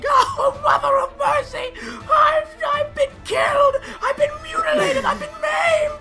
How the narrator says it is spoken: The antelope is screaming

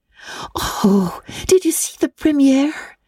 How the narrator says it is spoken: exclaimed Anne at once

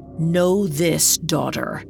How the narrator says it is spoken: he growled

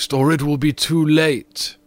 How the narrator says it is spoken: cried the ghost

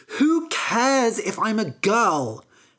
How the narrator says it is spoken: She said angrily

